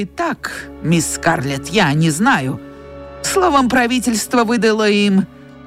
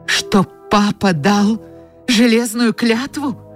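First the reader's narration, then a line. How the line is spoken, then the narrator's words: Exclamation. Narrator (Russian): воскликнула Скарлетт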